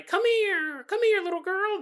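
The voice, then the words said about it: Mickey Mouse cartoon voice. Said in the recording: “my Mickey Mouse impression”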